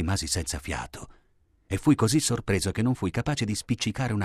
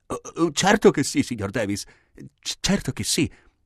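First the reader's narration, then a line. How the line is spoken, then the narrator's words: Stammered. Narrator (Italian): balbettai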